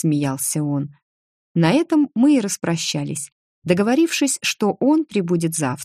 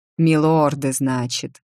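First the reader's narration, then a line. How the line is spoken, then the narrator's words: Grumbling. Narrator (Russian): проворчал он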